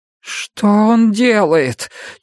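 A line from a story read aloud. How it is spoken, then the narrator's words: Near moan. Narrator (Russian): чуть ли не простонал Том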